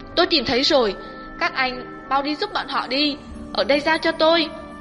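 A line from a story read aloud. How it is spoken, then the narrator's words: Sudden loud shout. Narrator (Vietnamese): Tiểu Tiểu đột nhiên hét lớn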